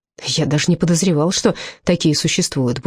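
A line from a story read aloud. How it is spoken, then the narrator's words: Grumbled. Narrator (Russian): буркнул я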